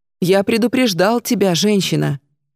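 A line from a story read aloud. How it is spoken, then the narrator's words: Gloomy. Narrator (Russian): проговорил Гемарис мрачно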